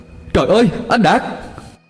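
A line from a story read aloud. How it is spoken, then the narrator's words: Panicked cry. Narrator (Vietnamese): Khải hốt hoảng la lên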